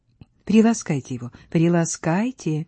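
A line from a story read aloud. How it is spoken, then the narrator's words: Whisper. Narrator (Russian): шепнул Вальдемар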